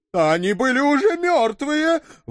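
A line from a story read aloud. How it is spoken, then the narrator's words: Frightened wailing, crying. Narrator (Russian): в испуге завопил бородатый, плача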